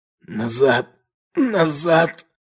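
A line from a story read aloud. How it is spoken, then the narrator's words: Hoarse wheeze. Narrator (Russian): Только и смог просипеть он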